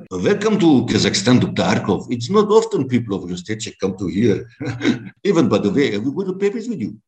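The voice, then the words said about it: Put-on Russian accent. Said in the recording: “your Russian accent was sensational in that film ... Could you give us a quick rendition of it?”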